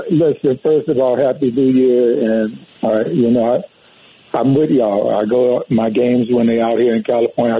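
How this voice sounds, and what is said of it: Regional American accent. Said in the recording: “you see I still got my accent, too.”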